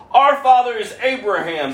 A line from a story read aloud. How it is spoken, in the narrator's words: they exclaimed